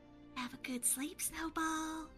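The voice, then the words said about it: Whispering. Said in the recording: “whisper”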